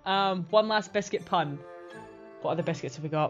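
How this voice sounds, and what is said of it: Soothing put-on Scottish accent. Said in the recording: “I'm going Scottish. ... I'm really enjoying this accent, Jenny. It's very soothing.”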